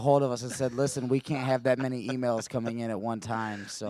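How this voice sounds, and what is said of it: Hoarse, worn-out voice. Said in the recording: “My voice is gone. ... I can tell. You're a little hoarse today”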